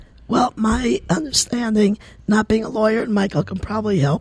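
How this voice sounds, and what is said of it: Strained, hoarse voice. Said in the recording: “Sorry about my voice,”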